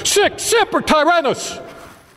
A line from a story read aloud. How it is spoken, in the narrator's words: shouted